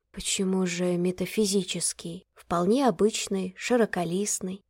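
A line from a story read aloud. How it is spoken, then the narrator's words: Quiet interjection. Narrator (Russian): тихо вставила Ирина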